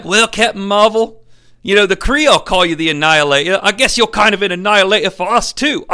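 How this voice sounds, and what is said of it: Put-on Australian accent. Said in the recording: “I don't know why I have an Australian accent, but I'm a Skrull”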